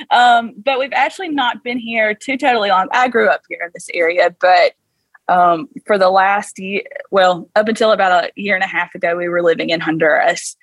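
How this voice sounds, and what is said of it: South Georgia Southern US accent. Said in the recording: “We are in South Georgia, which you might can tell by the accent. ... Yeah, a little bit.”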